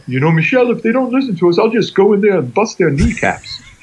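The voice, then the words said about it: Imitates another person's voice. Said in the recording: “How was my Gus impression, by the way?”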